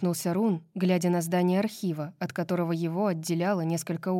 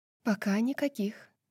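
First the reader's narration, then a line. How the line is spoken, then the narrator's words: Quiet. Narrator (Russian): тихо ответила она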